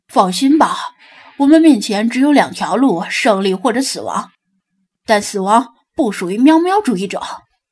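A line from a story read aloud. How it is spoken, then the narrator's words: Half-smiling, determined. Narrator (Chinese): 他似笑非笑的咧咧嘴，握紧拳头道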